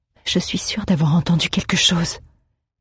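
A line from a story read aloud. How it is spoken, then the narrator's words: Whispered. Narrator (French): chuchota Aléa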